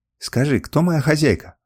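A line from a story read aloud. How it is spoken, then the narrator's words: Pleading. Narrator (Russian): взмолился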